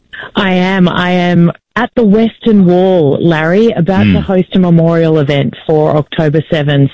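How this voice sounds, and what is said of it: Distinctive Australian accent. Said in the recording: “I can't quite pick up the accent. Are you from New Jersey? Because it's very distinctive. ... Australia is the New Jersey of the Southern Hemisphere”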